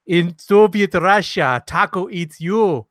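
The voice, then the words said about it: Put-on Russian accent. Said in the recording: “a Russian accent”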